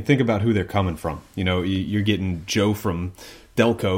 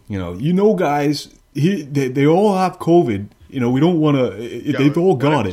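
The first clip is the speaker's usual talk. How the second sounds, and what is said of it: Poor imitation of a Delco local. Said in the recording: “That was a terrible impersonation.”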